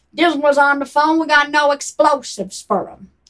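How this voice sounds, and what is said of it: Put-on Chicago/New York American accent. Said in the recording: “That's a good American accent. ... That's a better one. ... That's more my Chicago, New York.”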